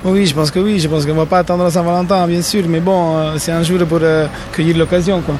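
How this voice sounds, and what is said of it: Sing-song Italian accent. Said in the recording (French): “un accent chantant qui ne ment pas. Et ce transalpin”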